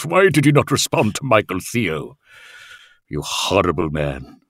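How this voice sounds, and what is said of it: Evil villain voice. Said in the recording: “I will give them my best sort of evil laugh.”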